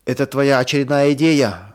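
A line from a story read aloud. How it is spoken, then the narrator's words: Shouted out. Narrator (Russian): выкрикнул кто-то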